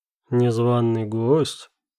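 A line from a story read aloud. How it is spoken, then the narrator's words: Calm question. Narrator (Russian): спокойным голосом спросил он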